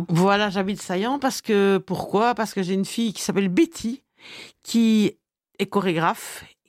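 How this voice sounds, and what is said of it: Belgian French accent. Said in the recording (French): “on l'entend à ton accent... Tu viens de Belgique.”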